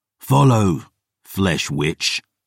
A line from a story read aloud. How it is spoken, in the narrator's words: I growled